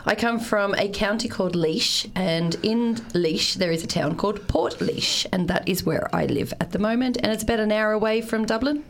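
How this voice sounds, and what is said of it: Australian accent with Irish tinges. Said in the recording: “you've got the most Australian Irish accent I've ever heard ... everybody thinks that I have a twang”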